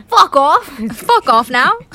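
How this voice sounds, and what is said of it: Put-on British accent. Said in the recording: “my British accent”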